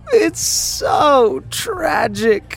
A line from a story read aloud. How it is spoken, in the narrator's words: she wailed